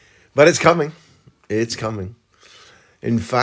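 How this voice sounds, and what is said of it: Usual voice. Nothing is said of it.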